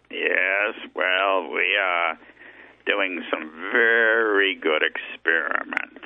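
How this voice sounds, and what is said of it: Character voice of Dr. Siegfried. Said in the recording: “I think that you can give his accent, Dr. Siegfried.”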